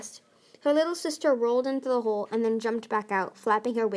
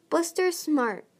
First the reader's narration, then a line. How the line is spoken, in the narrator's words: Starflight stammered